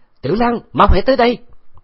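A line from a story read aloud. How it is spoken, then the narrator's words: Urgent loud shout. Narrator (Vietnamese): Khấu Trọng vội vàng hét lớn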